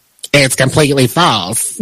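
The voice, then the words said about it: Tyler Perry impression, Madea voice. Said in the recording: “your Tyler Perry impression ... my Madea voice”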